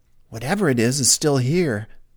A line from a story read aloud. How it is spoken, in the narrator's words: she said